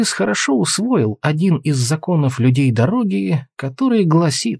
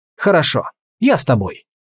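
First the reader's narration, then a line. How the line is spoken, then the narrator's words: Quick. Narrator (Russian): быстро сказал он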